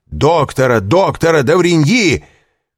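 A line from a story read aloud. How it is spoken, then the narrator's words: Shouted. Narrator (Russian): крикнул Вильфор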